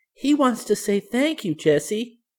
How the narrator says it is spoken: cried Violet

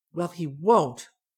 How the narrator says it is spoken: she told herself firmly

